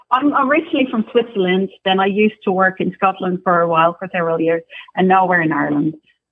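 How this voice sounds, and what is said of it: Slight Scottish-tinged mixed accent. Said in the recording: “I hear a little Scottish accent. ... She has all three accents all in one.”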